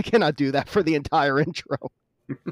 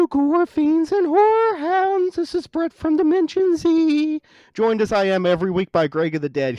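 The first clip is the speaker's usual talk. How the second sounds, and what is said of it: Mock opera singing voice. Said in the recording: “I'm doing opera ... my Tiny Tim impression ... your opera voice sounds a lot like Tiny Tim”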